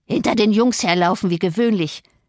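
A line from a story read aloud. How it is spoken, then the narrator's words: Malicious croak. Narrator (German): krächzte Joseph, der jede Gelegenheit für eine Bosheit wahrnahm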